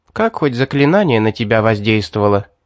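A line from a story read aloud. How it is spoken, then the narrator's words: Plain. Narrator (Russian): спросила она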